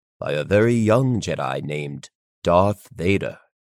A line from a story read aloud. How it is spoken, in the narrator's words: Kenobi declared solemnly